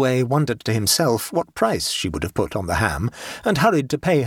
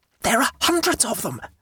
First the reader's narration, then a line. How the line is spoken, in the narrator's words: whispered Abbleway